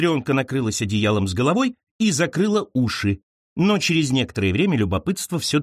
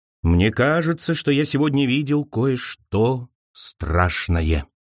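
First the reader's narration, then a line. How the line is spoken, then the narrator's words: Sepulchral voice. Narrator (Russian): загробным голосом произнес Тум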